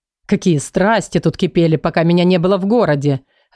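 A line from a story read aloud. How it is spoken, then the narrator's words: Laughing. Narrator (Russian): рассмеялся Махди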